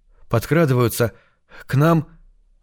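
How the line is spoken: Breathless exhale. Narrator (Russian): выдохнул Бальфус

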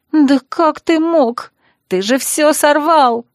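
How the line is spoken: Sobbing. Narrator (Russian): Хлоя всхлипнула

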